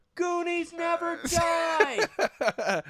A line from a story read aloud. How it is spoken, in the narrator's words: they yelled